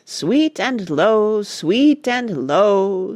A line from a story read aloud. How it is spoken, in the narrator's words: sang Cuffy at the top of her healthy lungs